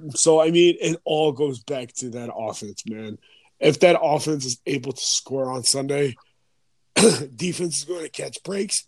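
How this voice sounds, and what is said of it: Hoarse, strained voice. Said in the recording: “I'm kind of losing my voice.”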